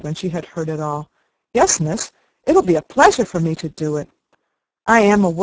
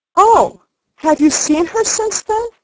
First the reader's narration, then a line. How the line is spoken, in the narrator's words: exclaimed Sarah